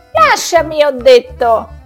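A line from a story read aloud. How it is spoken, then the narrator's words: Screamed at full lung. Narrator (Italian): urlò con tutto il fiato che aveva in corpo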